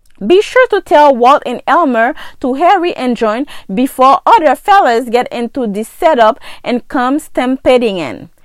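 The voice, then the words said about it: Haitian-accented English. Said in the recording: “my accent, once again, my come off like you didn't understand something that I said ... most of my friends got an accent just like me. We're from Haiti ... I got a funny accent”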